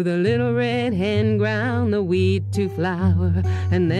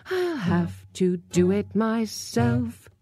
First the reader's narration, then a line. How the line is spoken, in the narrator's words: said the hen with a sigh